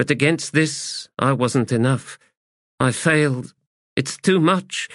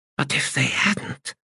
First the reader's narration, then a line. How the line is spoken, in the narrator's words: she whispered